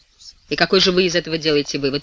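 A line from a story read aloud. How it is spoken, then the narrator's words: Sharp question. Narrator (Russian): резким тоном спрашивает Блаватский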